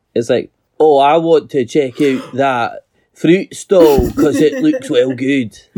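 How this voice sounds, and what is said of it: Put-on Scottish accent. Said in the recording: “You do have a character voice, but it's just more Scottish than you”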